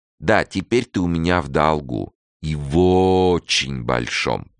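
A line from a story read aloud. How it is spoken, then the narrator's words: Drawling. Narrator (Russian): протянула она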